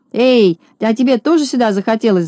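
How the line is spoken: Shout. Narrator (Russian): закричал он

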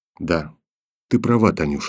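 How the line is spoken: Barely audible. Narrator (Russian): сказал он еле слышно

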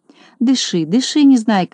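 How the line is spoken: Gentle. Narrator (Russian): ласково сказал доктор Пилюлькин

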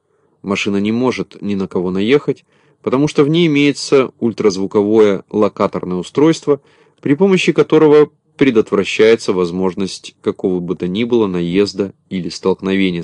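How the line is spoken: Plain. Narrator (Russian): сказал Кубик

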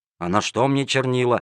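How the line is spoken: Grumbling. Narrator (Russian): ворчал незадачливый проситель

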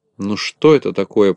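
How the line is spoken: Grumbling. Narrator (Russian): проворчал Ворчун

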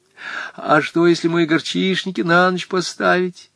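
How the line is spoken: Sobbing question. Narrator (Russian): спросила Наталья Кузьминична, всхлипывая

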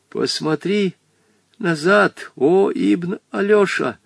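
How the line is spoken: Frightened old man's whisper. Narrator (Russian): Побледневший, с испуганно приподнятыми бровями, старик шепнул Вольке

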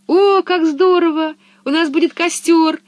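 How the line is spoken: Exclamation. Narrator (Russian): воскликнула Анника

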